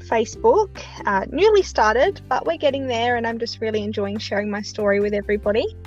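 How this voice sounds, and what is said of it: Speaks with a noticeable accent. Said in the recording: “everyone is going to love listening to your accent”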